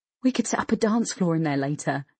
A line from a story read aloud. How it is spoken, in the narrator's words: she giggled